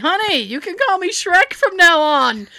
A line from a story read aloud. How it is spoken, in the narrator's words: My boyfriend, as he was being wheeled into recovery, yelled to me